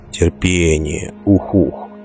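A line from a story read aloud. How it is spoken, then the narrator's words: Muttering. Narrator (Russian): бормотал он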